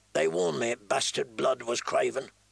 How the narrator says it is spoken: Corin Halfhand say coldly behind him

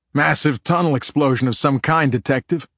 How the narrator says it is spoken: Cunneth called out in a drill sergeant baritone

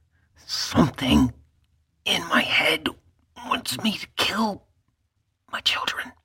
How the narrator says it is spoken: she said in a hurried whisper, very different from the voice she'd started speaking with

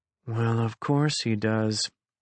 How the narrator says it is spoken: muttered Rafi

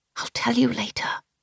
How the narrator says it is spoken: I whispered back

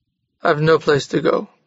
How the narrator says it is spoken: said Jurgis sadly

